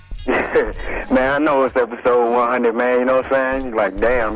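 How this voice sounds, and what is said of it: Tired-sounding voice. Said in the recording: “you sound tired?”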